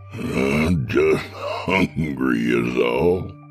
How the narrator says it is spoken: he chuckled

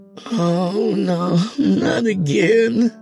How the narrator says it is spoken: she moaned

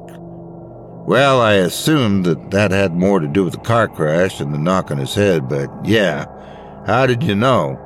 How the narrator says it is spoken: Adam sighed heavily

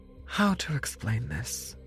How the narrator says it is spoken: Agatha said with a sigh

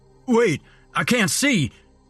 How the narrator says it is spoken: he cried

